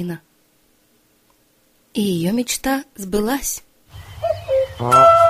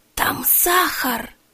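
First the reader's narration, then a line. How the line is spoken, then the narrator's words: Whispered. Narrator (Russian): прошептала Кларина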